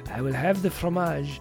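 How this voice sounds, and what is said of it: Poor put-on French accent. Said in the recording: “my very poor impersonation of saying the word cheese in French”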